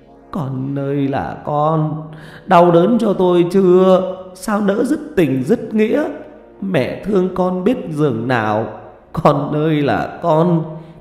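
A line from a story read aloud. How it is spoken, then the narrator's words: Weeping, moaning lament. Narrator (Vietnamese): Bà Chánh khóc than hai tiếng, rồi bà rên rỉ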